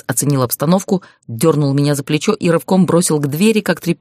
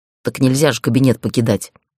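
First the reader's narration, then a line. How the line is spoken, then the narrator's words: Grumbling. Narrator (Russian): проворчала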